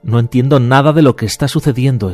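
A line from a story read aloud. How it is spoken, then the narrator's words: Young man exclaiming. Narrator (Spanish): exclamó el joven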